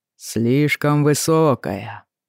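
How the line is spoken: Deep drawling rhythmic voice. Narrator (Russian): протянул он глубоким голосом, таившим в себе африканский ритм

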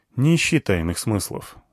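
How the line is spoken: Sighing. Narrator (Russian): вздохнул я

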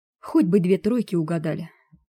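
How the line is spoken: Upset sigh. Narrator (Russian): вздохнула расстроенная Барбара

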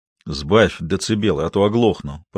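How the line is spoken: Grumbling. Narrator (Russian): проворчал Толя

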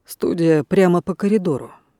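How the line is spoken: Quiet prompt. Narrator (Russian): негромко подсказал

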